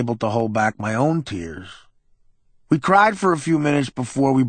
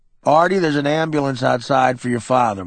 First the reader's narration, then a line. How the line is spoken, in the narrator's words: my uncle said